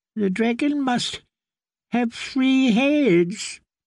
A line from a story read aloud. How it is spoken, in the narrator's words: he wailed